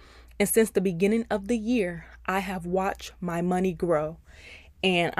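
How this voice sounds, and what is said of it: Usual voice. Nothing is said of it.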